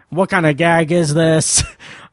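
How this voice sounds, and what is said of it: 60s tough guy voice impression. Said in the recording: “I'm going to try to do an imitation of it, and it's going to be terrible ... I can't do the inflection ... the weird, like, 60s tough guy tone that he takes”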